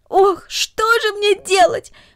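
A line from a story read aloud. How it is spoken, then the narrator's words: Exclaiming. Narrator (Russian): воскликнула Люся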